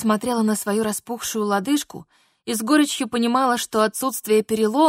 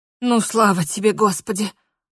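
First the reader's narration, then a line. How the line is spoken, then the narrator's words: Relieved exhale. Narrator (Russian): выдохнула Мэра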